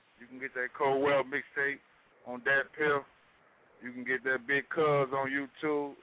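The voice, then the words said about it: St. Louis accent. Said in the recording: “We love your accent also. We love the St. Louis accents.”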